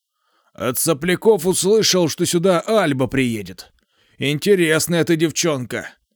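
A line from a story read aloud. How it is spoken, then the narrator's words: Deep hoarse voice. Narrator (Russian): Пробасил он с обычной хрипотцой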